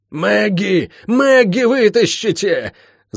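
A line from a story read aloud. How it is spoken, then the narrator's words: Straining full-throated yell. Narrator (Russian): заорала, надсаживаясь госпожа старший боцман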